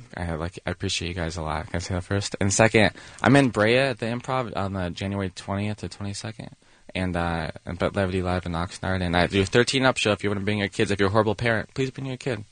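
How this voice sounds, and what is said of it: Speaking very softly. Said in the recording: “Why are you talking so softly?”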